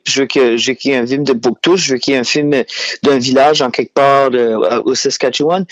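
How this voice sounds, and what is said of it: New Brunswick Acadian French accent. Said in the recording (French): “mon accent. Moi, je viens du Nouveau-Brunswick, je viens de Shediac.”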